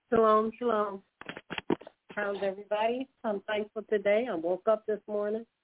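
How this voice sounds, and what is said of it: Voice sounds like a cold. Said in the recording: “I have a cold,”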